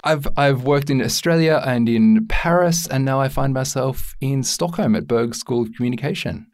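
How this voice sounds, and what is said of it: Australian accent. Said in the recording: “I've got an Australian accent.”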